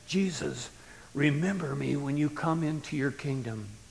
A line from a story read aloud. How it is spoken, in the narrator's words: A thief, crucified, the man hoarsely said